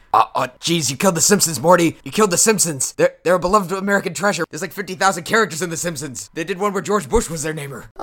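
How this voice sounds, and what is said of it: Bad Rick impression. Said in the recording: “I wish I could do good impressions of Rick and Morty. Mine suck. ... Rick and Morty style ... that sure is a bad impression.”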